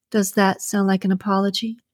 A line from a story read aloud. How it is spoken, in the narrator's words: she said, her voice full of jest